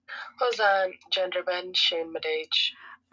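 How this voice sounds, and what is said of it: Put-on accent. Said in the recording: “That accent was out of this world.”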